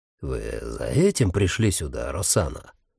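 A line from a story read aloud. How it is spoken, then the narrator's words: Soft, restrained voice. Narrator (Russian): Голос Батисты звучал мягко, сдержанно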